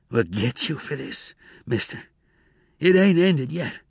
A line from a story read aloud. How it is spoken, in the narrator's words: He said feebly